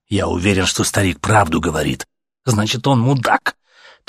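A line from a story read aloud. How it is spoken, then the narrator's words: Angry voice. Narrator (Russian): Так же зло сказал ему Артем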